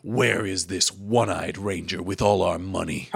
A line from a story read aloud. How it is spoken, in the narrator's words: The big guy asks